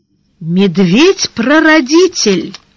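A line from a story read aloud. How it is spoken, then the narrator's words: Exclaiming. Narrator (Russian): воскликнул Таварош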